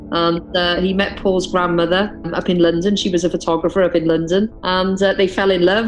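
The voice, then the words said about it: Welsh accent. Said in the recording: “it sounds like you have a Welsh or English accent.”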